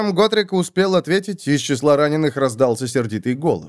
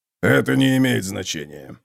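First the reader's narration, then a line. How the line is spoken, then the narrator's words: Grumbling. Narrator (Russian): проворчал Готрек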